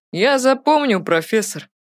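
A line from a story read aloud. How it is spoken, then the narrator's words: Mocking voice. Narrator (Russian): насмешливым голосом сказал Артур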